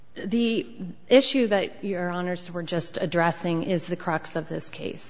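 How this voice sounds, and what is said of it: Voice strained from a cold. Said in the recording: “Pardon my voice. I'm recovering from a cold”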